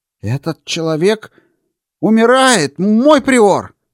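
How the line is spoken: Exclaiming doctor. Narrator (Russian): воскликнул врач

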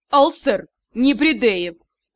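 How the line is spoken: Icy tone. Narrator (Russian): И сказано это было ледяным тоном

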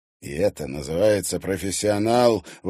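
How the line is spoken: Indignant speech. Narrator (Russian): возмущенно говорил Виктор Петрович

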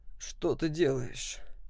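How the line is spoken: Tired question. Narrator (Russian): спросил уставшим голосом

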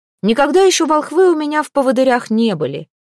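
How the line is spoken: Loud. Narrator (Russian): громко сказал Претич

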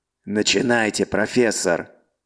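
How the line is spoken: Angry bark. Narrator (Russian): зло рявкнул Гунт

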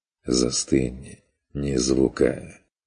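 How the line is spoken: Barely audible hissing whisper. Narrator (Russian): Змеиный шепот на самой грани слышимости

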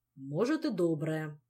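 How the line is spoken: Stern. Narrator (Russian): строго ответил король

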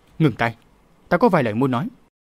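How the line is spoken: Shrill cry. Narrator (Vietnamese): Long Hành Thông Nữ đã thét lên

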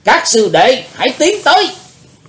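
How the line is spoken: Loud shout. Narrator (Vietnamese): quát lớn

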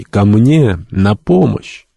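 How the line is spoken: Man exclaiming in French. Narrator (Russian): Какой-то человек воскликнул по-французски

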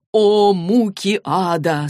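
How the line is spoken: Moaning. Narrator (Russian): стонал Эрик

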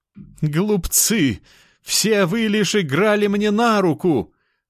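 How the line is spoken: Laughing triumphantly. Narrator (Russian): рассмеялся богоподобный

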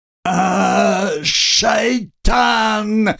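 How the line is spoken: Loud yell. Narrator (Russian): заорал лежащий

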